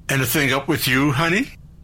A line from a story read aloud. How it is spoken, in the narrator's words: Jack shouted over his shoulder